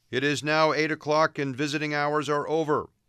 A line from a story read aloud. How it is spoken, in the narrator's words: bellowed the intercom